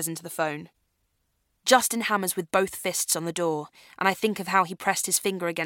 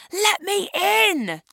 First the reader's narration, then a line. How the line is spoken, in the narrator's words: Justin roars from the other side of the door